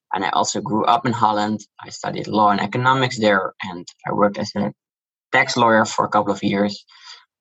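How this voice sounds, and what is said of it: Dutch accent. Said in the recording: “You can hear from my accent, I'm Dutch.”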